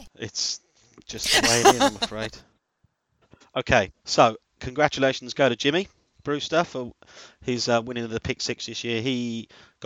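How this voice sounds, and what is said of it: Noticeable regional accent. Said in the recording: “It's the accent. I love the accent.”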